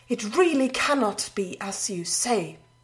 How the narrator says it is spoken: the runner gasped in astonishment

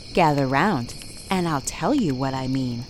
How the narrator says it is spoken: Gwyneth said, her voice low

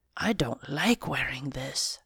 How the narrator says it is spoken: I whispered to Ringo

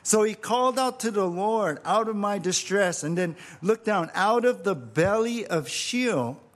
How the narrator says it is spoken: I cried

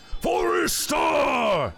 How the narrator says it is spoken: yells the mercenary's leader, a tall half-ogre

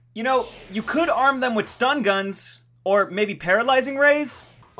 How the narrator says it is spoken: Oliver yelled toward the factory ceiling

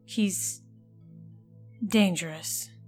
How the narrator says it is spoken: she muttered

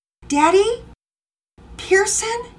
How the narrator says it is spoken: called out, the palpable tension rising in her voice

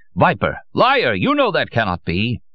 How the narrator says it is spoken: Out of control, cried

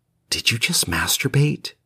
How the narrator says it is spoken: She whispered

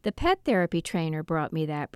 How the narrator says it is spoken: Bertie said

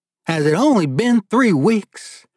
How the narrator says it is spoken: Warren replied in his own thick accent

